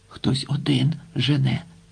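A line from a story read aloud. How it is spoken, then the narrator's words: Whisper. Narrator (Ukrainian): прошепотів Остап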